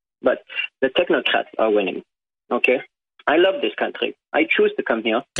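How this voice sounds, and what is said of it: Non-native foreign accent. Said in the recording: “Obviously, by my accent, I'm not from here.”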